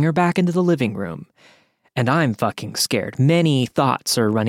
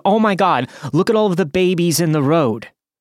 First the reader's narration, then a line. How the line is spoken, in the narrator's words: She screamed this at the top of her lungs